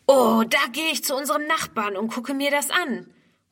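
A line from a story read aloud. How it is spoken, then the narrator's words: Called out. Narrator (German): ruft Ernst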